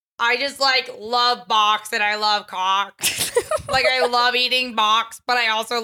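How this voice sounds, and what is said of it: Put-on party girl character voice. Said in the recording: “this is my new character ... This is a bisexual girl at a party ... everybody plugged their ears”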